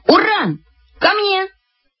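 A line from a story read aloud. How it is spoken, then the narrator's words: Shout. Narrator (Russian): как крикну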